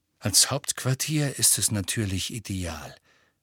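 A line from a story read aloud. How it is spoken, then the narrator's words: Plain. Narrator (German): sagte Sirius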